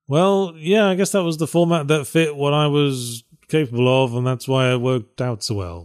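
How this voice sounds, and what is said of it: British accent. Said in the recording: “my quippy British accent”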